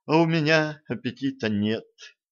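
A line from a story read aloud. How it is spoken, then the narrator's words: Wistful sigh. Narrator (Russian): тоскливо вздохнул Джим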